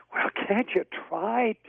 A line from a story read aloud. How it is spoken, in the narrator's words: cried Pat